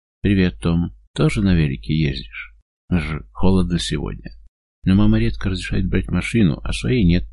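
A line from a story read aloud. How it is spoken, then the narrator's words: Sad reply. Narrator (Russian): печально отзывается он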